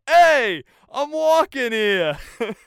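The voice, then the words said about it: Thick New York City accent. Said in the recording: “the most thick city New York City accent.”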